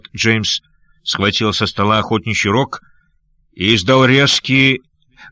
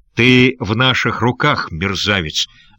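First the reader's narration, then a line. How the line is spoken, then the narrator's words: Angry. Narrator (Russian): злобно сказал лорд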